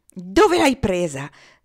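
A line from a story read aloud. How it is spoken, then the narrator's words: Shout. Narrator (Italian): gridò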